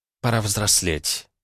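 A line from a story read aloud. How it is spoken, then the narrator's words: Quiet, to herself. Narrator (Russian): тихо сказала сама себе Эрга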